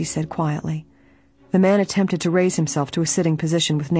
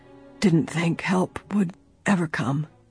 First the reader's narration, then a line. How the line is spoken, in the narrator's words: he murmured